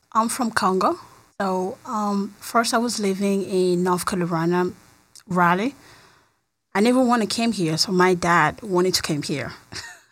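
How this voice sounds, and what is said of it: Foreign accent. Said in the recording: “you have a really cool accent.”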